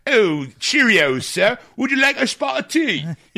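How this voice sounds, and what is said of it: Poor put-on British accent. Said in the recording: “put like a Cockney accent on ... like how an American would be like ... I think my British accent's better. Like, and mine sucks.”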